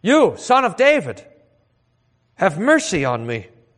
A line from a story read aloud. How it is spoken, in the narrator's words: he cried out all the more